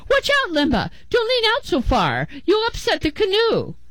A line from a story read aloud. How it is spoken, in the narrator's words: Her father shouted